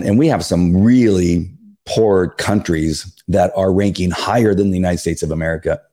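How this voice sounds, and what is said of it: Strained voice, losing it. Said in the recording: “while I'm losing my voice”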